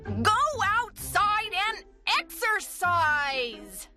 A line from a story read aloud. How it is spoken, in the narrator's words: she bellowed